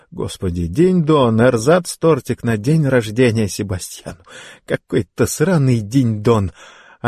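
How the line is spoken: Laughing loudly. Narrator (Russian): Она все еще хохотала

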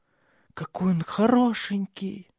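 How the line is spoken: Hoarse whisper. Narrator (Russian): хрипло шепнула она

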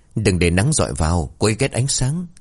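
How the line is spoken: Soft hiss. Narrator (Vietnamese): khẽ rít lên

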